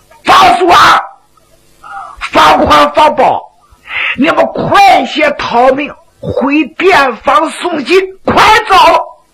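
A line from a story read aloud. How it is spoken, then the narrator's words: Shouting while fighting. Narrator (Chinese): 徐良一看不好，一边打着一边喊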